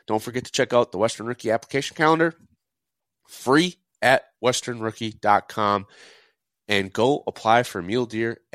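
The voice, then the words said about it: Tired, worn-out voice. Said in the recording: “You can all tell from my voice that I've done four of these back to back to back.”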